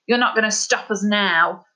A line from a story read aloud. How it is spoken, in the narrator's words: snarled Daedalus, his breath hot and heavy